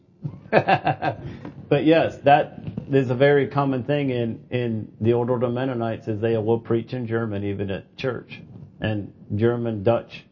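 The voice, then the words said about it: Pennsylvania Dutch accent, slightly southern. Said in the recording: “It's a Pennsylvania Dutch is what I talk. ... So I will never lose my accent for where I moved to. It can get a little bit southern, but it's just still there.”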